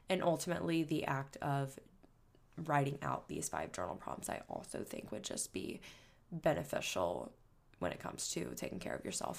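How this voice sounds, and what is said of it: Slightly scratchy, off-sounding voice. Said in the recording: “if I sound a little weird, ... my allergies have been bothering me all weekend ... my throat's been the same way ... scratchy and itchy ... apologies if I sound a little off”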